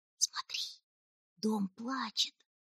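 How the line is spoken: Whisper. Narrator (Russian): прошептала Титта

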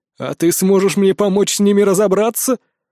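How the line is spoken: Laughing king. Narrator (Russian): рассмеялся король

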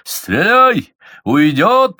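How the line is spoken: Yelled. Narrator (Russian): заорал Меньшиков

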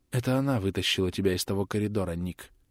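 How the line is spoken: Quiet. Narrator (Russian): тихо произнесла Трис

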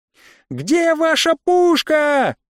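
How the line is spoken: Shouting across a corridor. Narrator (Russian): закричала девушка через весь коридор

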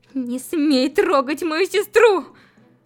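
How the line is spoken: Tearful. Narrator (Russian): Повторила она сквозь слезы

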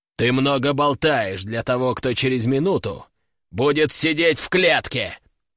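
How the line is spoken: Growl. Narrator (Russian): прорычал Гром

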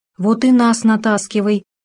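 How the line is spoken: Heavy sigh. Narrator (Russian): тяжело вздохнул заяц Толстун

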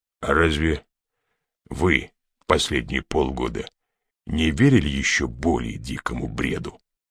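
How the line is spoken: Calm questioning. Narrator (Russian): спокойно переспросил ГМ

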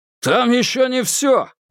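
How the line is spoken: Loud reply. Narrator (Russian): громко отозвался он

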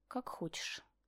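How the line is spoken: Sad whisper. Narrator (Russian): прошептала, погружаясь все в большую тоску

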